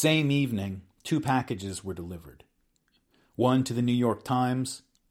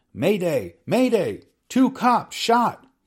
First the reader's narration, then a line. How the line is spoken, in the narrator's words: Hill yelled